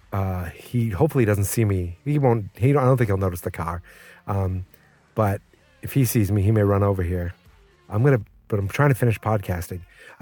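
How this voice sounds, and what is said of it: Whispering. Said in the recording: “why I'm whispering.”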